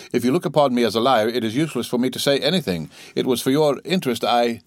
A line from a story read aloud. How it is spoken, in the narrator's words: said he gravely